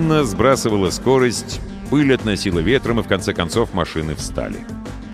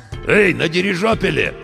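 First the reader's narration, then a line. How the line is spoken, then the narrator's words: Hoarse voice over radio. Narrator (Russian): откликнулась рация все тем же хриплым голосом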